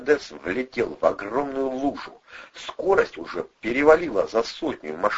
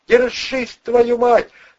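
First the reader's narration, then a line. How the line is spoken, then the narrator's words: Ringing tense shout. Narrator (Russian): звонко выкрикнул Бандура, готовясь к самому худшему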